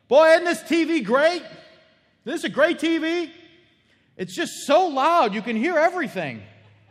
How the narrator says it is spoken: he yells from the TV room, from the family room, he yells

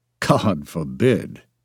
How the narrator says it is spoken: groaned

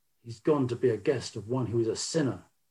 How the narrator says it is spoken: began to grumble and said

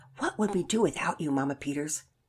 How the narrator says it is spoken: Micah replied in a hushed tone

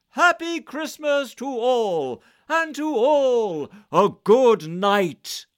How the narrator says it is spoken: I heard him exclaim, ere he drove out of sight

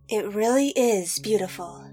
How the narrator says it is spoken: Nissa whispered up to Ashaya

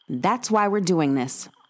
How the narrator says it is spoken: Reggie said

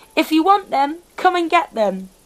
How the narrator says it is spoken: The girl looked down smiling and shouted

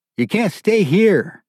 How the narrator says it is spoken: yelled, while the buggy bounced under him

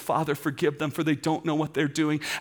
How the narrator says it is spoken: he cries out, as he cries to heaven, he says

